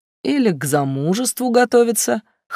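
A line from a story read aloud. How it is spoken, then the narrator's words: Snort. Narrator (Russian): хмыкнул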